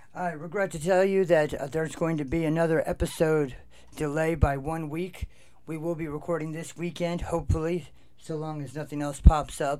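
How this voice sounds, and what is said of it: Rough, strained voice. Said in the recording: “as you can hear, my voice is jacked up”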